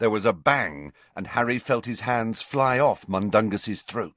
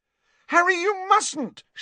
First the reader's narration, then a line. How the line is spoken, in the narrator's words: shrieked Hermione